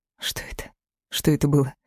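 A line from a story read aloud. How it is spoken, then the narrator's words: Quiet, secretive question. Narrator (Russian): спросила тихо, видимо, чтобы не понял Эльдар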